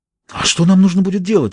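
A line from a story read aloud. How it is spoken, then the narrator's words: Breathless. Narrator (Russian): выдохнула она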